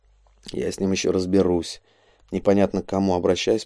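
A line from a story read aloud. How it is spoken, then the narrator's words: Mumble. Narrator (Russian): пробормотал Шагади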